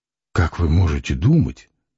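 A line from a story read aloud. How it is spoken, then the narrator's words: Muttered. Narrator (Russian): пробормотал Самгин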